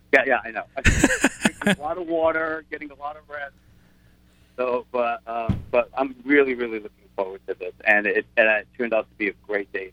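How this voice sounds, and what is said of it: Slightly rough, hoarse voice. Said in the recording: “I sang last night a little bit, so I'm a little rough.”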